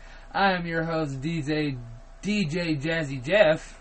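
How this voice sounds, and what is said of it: Put-on radio DJ voice. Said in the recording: “radio voice”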